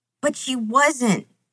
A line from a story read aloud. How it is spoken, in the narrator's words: Sam sobs